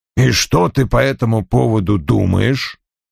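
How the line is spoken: Grumbling. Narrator (Russian): проворчал Вульф

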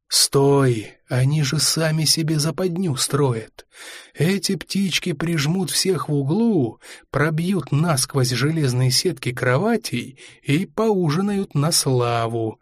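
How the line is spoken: Calm. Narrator (Russian): объяснил Фрол спокойным голосом

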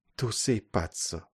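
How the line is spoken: Flattered murmur. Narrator (Russian): польщенно пробормотала она

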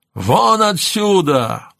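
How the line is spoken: Shouting. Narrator (Russian): заорал он

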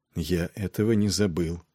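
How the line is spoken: Quiet voice. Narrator (Russian): проговорил тихо Нед

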